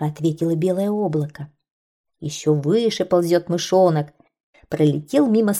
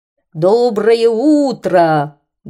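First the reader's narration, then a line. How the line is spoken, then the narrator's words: Airplane's loud booming hum. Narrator (Russian): громко прогудел самолет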